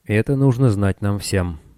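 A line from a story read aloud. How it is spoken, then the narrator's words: Said calmly. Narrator (Russian): спокойно проговорил он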